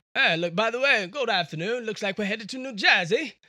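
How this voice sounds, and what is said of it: Put-on accent. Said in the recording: “sometimes I would do it in an accent.”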